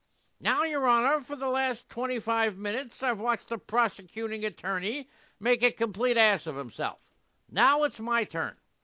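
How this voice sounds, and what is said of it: Imitates another person's voice. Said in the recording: “do a voice ... I think the imitation was pretty good”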